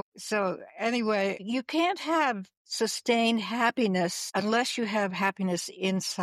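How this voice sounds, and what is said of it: Usual voice. Nothing is said of it.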